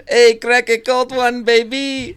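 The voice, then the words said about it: Put-on South African accent. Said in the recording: “I love the South African accent.”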